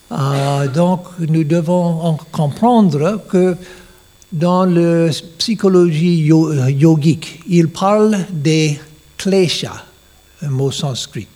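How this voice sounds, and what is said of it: Non-native accent speaking French. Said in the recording (French): “mon euh, mauvais accent français”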